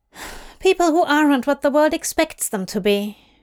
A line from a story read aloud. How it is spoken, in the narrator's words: Johanna says, sighing it out